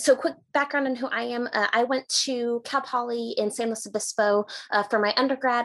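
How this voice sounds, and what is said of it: Californian American accent. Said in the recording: “originally from California, as I'm sure you can tell by my accent, I'm not Scottish”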